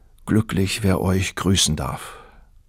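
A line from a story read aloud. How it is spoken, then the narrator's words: Young man sighing. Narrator (German): seufzte der Bursche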